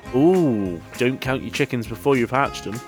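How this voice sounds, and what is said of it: Put-on accent for a character. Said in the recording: “I don't know why everybody's now got this accent, because this isn't the accent.”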